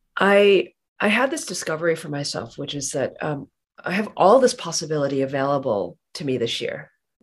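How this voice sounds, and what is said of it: Sick, rough-sounding voice. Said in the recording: “I apologize for my voice. I sound worse than I feel, but I definitely have COVID”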